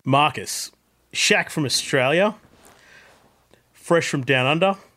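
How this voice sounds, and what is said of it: Put-on Australian accent. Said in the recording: “I've been practicing my Australian voice... my best Australian accent.”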